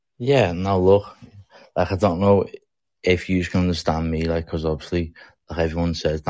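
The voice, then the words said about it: Liverpool English accent. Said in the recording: “brother from across the pond ... Liverpool in the house ... And you got your funny accent.”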